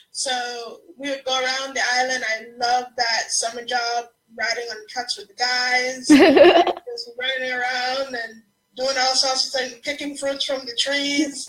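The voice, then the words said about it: Antiguan Caribbean accent. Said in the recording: “I'm from the island of Antigua. You'll hear the accent.”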